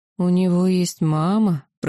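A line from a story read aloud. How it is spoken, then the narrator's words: Drawn-out drawl. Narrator (Russian): протянула Камали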